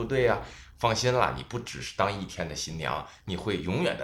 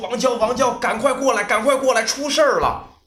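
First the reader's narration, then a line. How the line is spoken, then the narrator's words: Urgent shout. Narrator (Chinese): 他张嘴就喊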